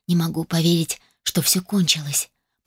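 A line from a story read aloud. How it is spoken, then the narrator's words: Tender whisper. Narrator (Russian): прошептала я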